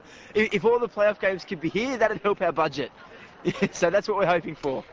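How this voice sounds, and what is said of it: Wisconsin accent. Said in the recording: “Spoken like a true Packers fan, accent and all.”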